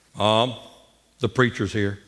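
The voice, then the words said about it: Imitated deep voice. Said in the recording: “he's always had a real deep voice, even as a little bitty kid ... like the deep voice”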